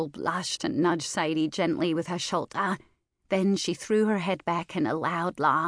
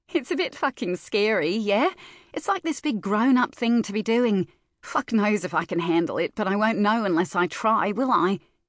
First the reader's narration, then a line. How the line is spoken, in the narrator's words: Sadie chuckled